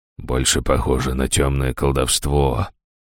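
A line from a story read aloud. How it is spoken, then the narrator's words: Muttered. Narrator (Russian): пробормотал Ришнис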